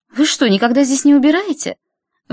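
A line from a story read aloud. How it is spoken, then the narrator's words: Exclaiming. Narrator (Russian): воскликнула она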